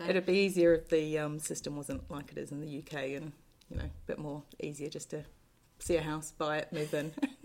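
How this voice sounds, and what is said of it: Slight New Zealand-Australian twang. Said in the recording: “there's a slight accent there. ... Twang. ... I'm from New Zealand originally. I've also lived in Australia, so my accent is a bit messed up.”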